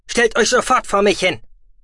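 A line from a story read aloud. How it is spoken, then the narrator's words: Stern patriarch. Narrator (German): sagte der Patriarch derart streng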